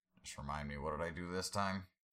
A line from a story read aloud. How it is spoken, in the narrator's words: Tangerine sighed